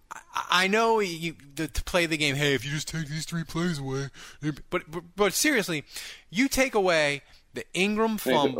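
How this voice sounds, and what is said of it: Nerdy put-on voice. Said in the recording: “nerd voice”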